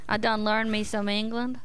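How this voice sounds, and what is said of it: Weak put-on southern accent. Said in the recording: “You got to make that southern accent thicker”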